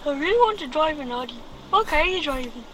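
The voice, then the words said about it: Child doing a cartoon character voice. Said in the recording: “impersonating a Noddy”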